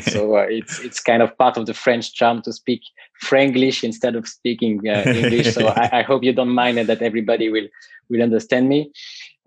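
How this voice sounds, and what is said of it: French-accented English. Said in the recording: “I'm French, as you can hear from my accent.”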